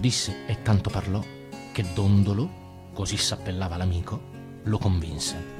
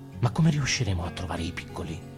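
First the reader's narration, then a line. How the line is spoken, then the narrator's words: Murmured. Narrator (Italian): Tobia mormorò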